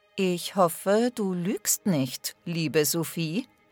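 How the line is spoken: Soft-spoken. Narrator (German): sagte der König leise

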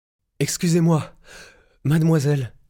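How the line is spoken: Panting. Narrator (French): haleta-t-il

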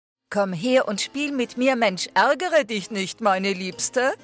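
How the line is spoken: King calling across stairwell. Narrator (German): rief der König durch das Treppenhaus

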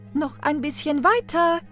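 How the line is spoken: Stepmother calling out. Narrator (German): rief die Stiefmutter

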